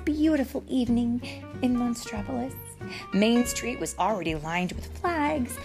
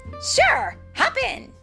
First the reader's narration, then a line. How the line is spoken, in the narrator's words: Mike exclaimed